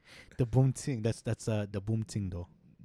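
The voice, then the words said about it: Put-on Jamaican islander accent. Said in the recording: “Why do I got like a Jamaican accent? ... Like an islander.”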